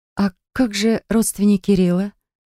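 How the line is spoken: Exhaled words. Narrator (Russian): выдохнул наконец я

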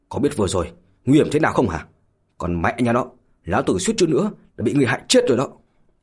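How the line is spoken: Angry loud scolding. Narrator (Vietnamese): cũng đã thật sự nổi giận rồi, lớn tiếng mà mắng

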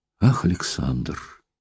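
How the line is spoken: Calm, even voice. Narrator (Russian): сказала спокойно и ровно

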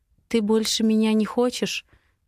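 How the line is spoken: Quiet question. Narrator (Russian): негромко спрашиваю я

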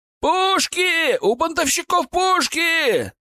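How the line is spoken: Shouted from wall. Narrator (Russian): прокричали со стены

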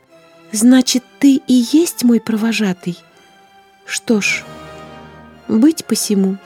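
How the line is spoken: Sad, smiling. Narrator (Russian): грустно улыбнулась девушка

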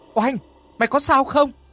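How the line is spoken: Worried shout. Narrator (Vietnamese): hét lên lo lắng

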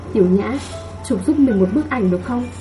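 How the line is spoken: Soft. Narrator (Vietnamese): khẽ nói

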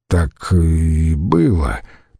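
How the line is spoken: Mumbled. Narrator (Russian): промямлил Гиртий

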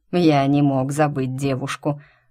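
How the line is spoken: Mocking reply. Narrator (Russian): насмешливо отозвался мистер Клоуфорд

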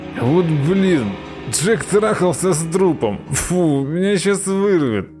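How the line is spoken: Disgusted groaning. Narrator (Russian): застонал Ленька

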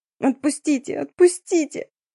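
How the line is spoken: Quiet whimper. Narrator (Russian): тихо скулила Дарина

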